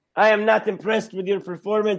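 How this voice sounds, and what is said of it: Put-on French Canadian accent. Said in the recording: “my Canadian French Canadian accent.”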